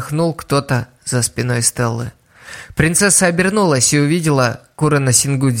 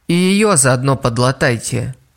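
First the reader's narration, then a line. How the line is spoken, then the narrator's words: Grumbling. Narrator (Russian): проворчала директриса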